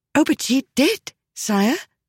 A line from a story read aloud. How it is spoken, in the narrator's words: Miss Hooda said eagerly